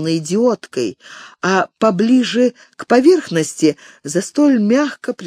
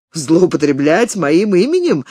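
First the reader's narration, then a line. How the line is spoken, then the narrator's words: Laughing. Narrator (Russian): Саймон засмеялся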